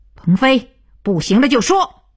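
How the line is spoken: Loud. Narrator (Chinese): 徐东福 大声道

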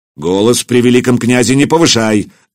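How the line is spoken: Barked. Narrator (Russian): рявкнул Претич

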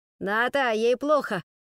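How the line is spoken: Loud shout. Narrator (Russian): громко крикнул кто-то

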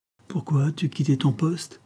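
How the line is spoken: Angry exclamation. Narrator (French): s'écria-t-il avec colère

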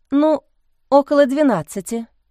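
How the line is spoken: Uncertain. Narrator (Russian): неуверенно сказала Лиза

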